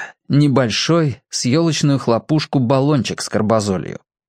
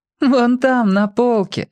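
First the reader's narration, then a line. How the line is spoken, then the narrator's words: Laughing. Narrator (Russian): засмеялась Оля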